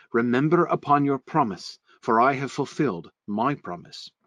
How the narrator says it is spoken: sighed Sir Palamides

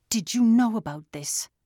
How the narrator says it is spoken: Arius shouted

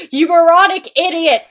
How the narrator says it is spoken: he shouted angstily

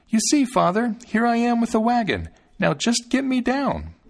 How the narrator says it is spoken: Thumbling called out to him

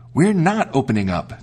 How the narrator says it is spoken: they cried out

